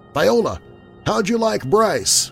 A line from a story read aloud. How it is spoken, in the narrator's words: a newsman called out